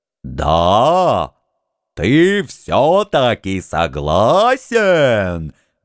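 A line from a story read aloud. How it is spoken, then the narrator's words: Ecstatic roar. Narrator (Russian): восторженно взревел Хан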